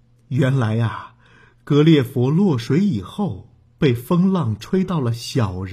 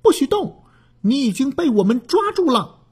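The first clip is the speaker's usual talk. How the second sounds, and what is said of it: Small, tiny voice. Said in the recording (Chinese): “一个很小的声音说”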